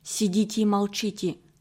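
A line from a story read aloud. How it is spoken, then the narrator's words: Whisper. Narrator (Russian): шепнул он беглецам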